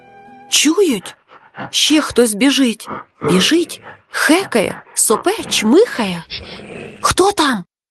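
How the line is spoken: Frightened whisper in unison. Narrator (Ukrainian): В один голос перелякано зашепотіли друзі

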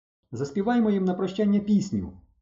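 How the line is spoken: Exclaimed. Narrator (Ukrainian): вигукнула Валька

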